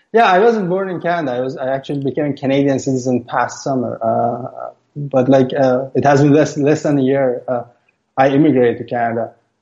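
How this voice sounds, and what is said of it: Non-American accent. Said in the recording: “From your accent, I suspect you are not born in the United States.”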